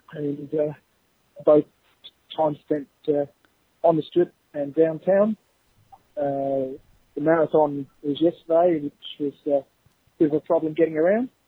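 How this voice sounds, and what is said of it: Australian accent. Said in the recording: “thank you for sharing your accent with us because I could listen to that all day ... Don't hear enough Australian accents lately”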